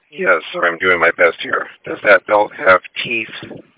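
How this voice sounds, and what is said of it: Hoarse, strained voice. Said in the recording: “I'm very hoarse today”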